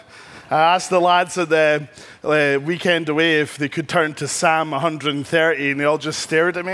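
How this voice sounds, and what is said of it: Speaker's own noticeable accent. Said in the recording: “I'm trying to slow down my accent”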